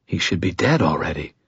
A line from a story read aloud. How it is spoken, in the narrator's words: I whispered